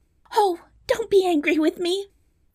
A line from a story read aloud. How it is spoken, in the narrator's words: cried the princess